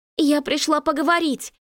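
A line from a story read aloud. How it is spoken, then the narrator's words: Pleading. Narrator (Russian): взмолилась я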